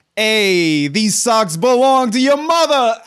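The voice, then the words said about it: Put-on old-school Italian-American accent. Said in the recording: “anything can be said as an insult if you say it with an old school Italian-American accent”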